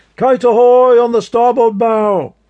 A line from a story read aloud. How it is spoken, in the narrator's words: He shouted